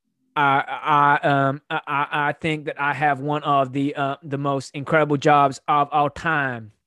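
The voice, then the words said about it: Poor, not-quite-American celebrity impression. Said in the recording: “let's see if I can do an impression of this guy ... I want you to like American, but not quite ... I was doing Kanye West ... Fucking awful ... That is dreadful”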